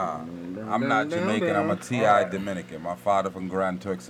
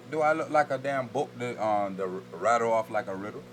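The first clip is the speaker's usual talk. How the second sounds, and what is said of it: Attempted Caribbean patois accent. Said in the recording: “bust us with some patois right now ... I feel like you tried to put an accent with that”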